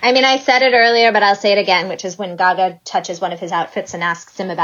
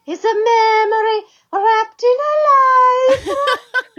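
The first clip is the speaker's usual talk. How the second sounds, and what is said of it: Put-on Italian accent. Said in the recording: “do you want to give it to us in your Italian accent?”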